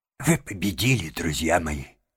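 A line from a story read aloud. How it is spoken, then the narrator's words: Trembling voice. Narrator (Russian): сказал он дрожащим голосом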